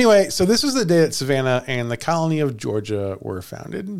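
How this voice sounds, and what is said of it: Usual voice. Nothing is said of it.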